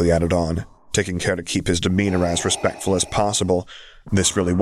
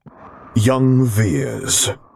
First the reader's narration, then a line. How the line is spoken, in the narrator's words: rumbled lowly